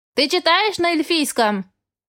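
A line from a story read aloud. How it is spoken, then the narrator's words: Shouted. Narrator (Russian): крикнул мне библиотекарь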